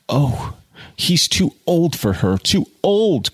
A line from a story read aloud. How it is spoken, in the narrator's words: cried Jude in all the terrible sickness of hopeless, handicapped love